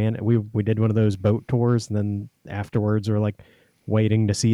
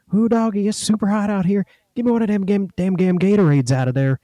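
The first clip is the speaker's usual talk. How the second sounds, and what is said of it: Thick put-on Cajun accent. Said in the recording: “I love the Cajun accent that you gave him to. ... He had it thick.”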